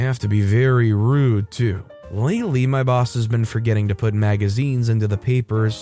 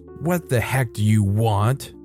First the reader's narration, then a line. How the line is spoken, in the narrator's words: She coughs slightly and in a typical Karen voice, she goes